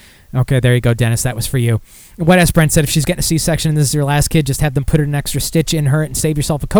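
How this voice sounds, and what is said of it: Usual voice. Nothing is said of it.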